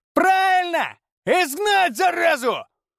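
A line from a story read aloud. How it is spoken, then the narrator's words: Shout. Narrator (Russian): Кто-то крикнул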